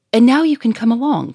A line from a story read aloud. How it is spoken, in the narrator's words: cried Victor